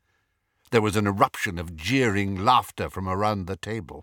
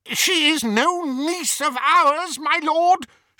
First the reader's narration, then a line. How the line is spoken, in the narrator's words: cried over the outpouring of mirth